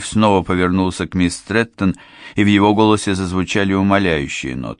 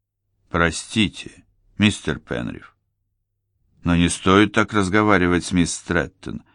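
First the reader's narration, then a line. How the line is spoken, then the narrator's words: Calm voice. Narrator (Russian): спокойно сказал Освальд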